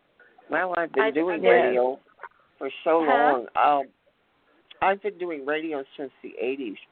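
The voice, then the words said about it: Smooth, resonant radio voice. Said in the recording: “you have a radio voice”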